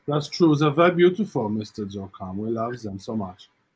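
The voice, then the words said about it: Put-on German accent. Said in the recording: “So we're back to German accent again. ... So my German is based on that.”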